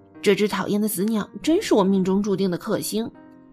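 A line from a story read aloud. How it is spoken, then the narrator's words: Irritated muttering. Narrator (Chinese): 他嘟囔着说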